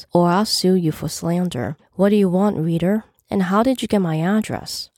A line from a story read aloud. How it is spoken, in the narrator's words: said calmly